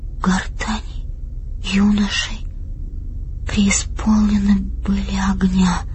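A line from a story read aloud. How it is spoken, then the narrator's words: Absent-minded whisper. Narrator (Russian): сказала она шепотом, сама не осознавая, что говорит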